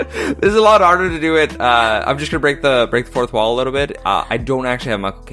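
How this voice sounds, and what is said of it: Usual voice. Nothing is said of it.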